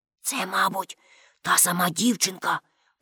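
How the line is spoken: Whispering. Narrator (Ukrainian): прошепотів Шибай-голова Карлсон

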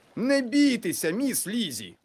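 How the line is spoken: Exclaimed. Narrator (Ukrainian): вигукнув містер Тонтон

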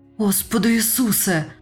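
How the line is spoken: Groaning. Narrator (Ukrainian): простогнав

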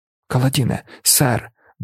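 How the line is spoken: Exclaimed. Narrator (Ukrainian): вигукнув Цен

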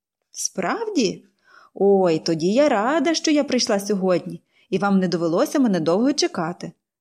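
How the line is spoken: Cheerful laughing. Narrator (Ukrainian): весело засміялася Поліанна

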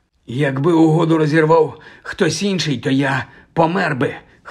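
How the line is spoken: Hoarse reply. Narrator (Ukrainian): хрипло відповів Кальцифер

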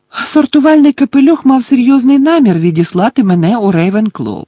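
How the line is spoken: Joyful explanation. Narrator (Ukrainian): радісно пояснили Герміона

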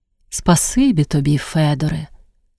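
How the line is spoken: Quiet thanks. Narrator (Ukrainian): тихо подякувала вона

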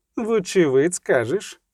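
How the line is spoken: Sighing elf. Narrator (Ukrainian): зітхнув ельф

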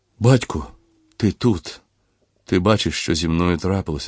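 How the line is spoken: Moaning. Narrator (Ukrainian): стогнав він

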